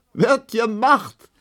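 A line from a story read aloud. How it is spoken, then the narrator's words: Laughing. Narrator (German): lachte die lange Emma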